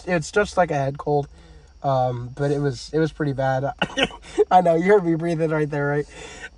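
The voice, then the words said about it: Hoarse, congested voice. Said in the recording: “You can tell my voice. I'm pretty hoarse, and my voice is definitely not the best... I still have this cough and a slight stuffy nose”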